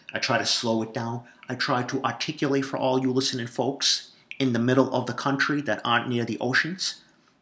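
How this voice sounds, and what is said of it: Boston accent. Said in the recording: “You can hear it, the Boston accent. ... I'm proud of the Boston accent. I don't hide my Boston accent.”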